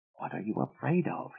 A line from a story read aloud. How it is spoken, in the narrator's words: he whispered